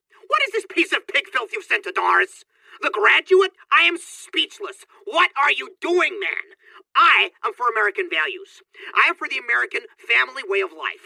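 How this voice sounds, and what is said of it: Angry shouting. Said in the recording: “Why are you shouting?”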